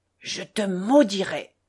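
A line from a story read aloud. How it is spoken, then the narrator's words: Grandfather whispering. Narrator (French): chuchota grand-père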